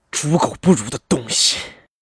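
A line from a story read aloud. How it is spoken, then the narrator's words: Seething through teeth. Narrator (Chinese): 张强…皱紧了眉头，咬牙切齿道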